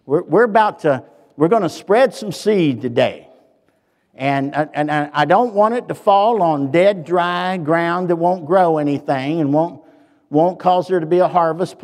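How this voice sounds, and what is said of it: Southern accent. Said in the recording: “my southern accent. I need an interpreter”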